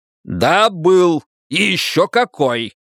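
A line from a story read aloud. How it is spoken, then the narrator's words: Shouted in her face. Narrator (Russian): выкрикнул волк ей в лицо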